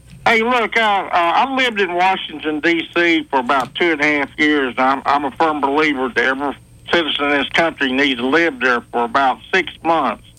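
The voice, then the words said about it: A noticeable regional accent. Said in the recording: “this amazing accent”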